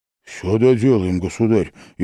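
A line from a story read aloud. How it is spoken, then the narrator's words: Frightened hurried promise. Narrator (Russian): испуганно и торопливо обещал Малюта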